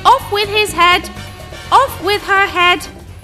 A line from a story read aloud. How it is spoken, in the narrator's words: She kept shouting